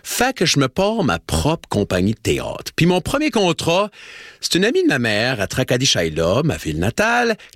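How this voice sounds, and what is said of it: Slight distinctive accent. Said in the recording (French): “j'ai un petit accent spécial”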